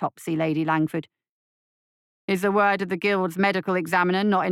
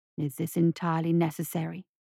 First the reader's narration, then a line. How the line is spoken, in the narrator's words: It whispered